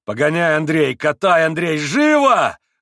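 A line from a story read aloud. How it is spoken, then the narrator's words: Shout. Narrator (Russian): закричал он в выступлении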